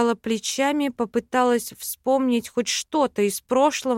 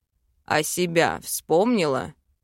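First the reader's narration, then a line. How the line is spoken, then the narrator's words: Snort. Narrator (Russian): хмыкнул он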